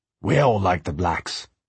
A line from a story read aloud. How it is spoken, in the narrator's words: said Jim